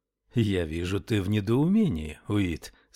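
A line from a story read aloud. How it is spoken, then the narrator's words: Plain. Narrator (Russian): сказал Яв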